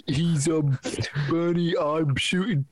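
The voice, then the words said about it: Bernie Sanders impression, New York accent. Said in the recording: “Bernie, he talks like this. He's got the New York accent.”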